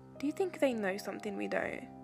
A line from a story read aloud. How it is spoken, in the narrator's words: Haw scoffed